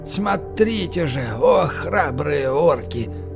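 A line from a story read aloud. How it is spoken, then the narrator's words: Tired. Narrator (Russian): Устало повторил Гнурд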